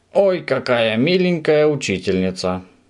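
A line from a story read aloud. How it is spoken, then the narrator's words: Surprised exclamation. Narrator (Russian): удивленно воскликнул Субастик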